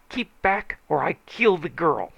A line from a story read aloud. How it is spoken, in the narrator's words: he howled